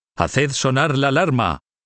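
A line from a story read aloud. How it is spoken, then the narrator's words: Sentry shouting. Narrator (Spanish): se oyó gritar a un centinela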